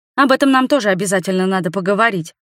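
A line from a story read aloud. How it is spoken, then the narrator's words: Rapid patter. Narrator (Russian): протараторила я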